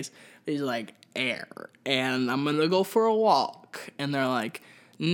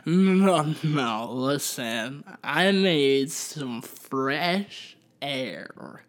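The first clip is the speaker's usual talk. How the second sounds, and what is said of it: Drunk, slurred voice. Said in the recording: “That's my drunk impression”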